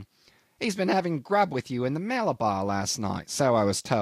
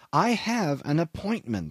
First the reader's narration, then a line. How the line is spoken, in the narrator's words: I pleaded mildly